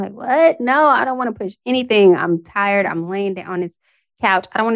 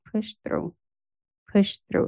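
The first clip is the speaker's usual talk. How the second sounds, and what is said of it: Whispered. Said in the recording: “Just a little whisper.”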